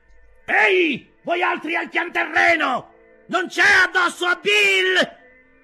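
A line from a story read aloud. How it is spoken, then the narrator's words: Blind man shouting again. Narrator (Italian): gridò di nuovo il cieco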